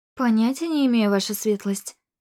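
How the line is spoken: Matter-of-fact tone. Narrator (Russian): ответила я будничным тоном

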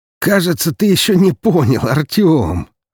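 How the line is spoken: Loud laughter. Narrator (Russian): расхохотался Даниил

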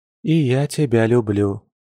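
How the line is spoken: Quiet sighing reply. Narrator (Russian): вздохнув, тихо ответила она

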